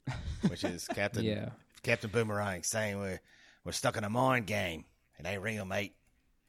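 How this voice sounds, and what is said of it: Put-on Australian accent. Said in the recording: “Your Australian accent is blowing me away. That's really ... good”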